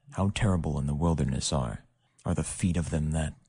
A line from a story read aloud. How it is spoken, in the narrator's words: moan, whisper